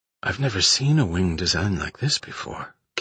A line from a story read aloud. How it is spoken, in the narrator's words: Kip said under his breath